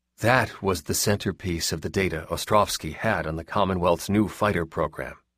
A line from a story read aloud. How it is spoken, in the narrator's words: Glass said quietly